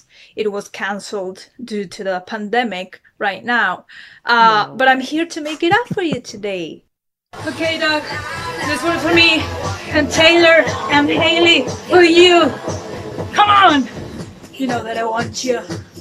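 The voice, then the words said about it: Confusing made-up Eastern European-ish accent. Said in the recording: “That accent's worse than Michael's... I've never heard that accent before... I thought it was sort of Eastern European, maybe, but it's very confusing... She made it up.”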